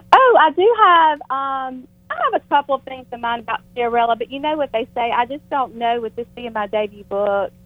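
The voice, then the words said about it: Smooth, charming American accent. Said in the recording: “I love your accent. It's so beautiful. ... if I pick an American accent, I think I'd pick your accent, because it's so smooth, and it's so charming.”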